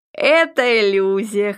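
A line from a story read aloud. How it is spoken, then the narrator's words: Host's merry laugh. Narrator (Russian): хозяин весело рассмеялся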